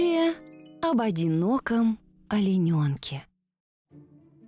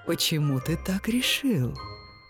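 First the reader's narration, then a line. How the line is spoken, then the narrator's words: Sighing. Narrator (Russian): Олененок вздохнул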